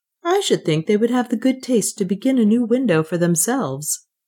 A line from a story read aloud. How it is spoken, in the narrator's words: said Tom